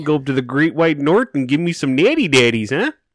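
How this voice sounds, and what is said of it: Convincing put-on Minnesota accent. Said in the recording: “way too good at that fucking Minnesota accent”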